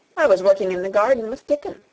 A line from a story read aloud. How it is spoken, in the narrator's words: said Mary